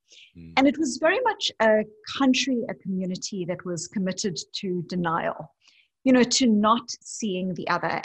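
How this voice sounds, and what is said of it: South African English accent. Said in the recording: “as you can hear by my accent, I am not American or Australian. I grew up as a white South African”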